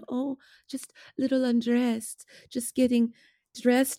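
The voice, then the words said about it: Put-on Quebecois French accent. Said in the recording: “that little Quebecois accent”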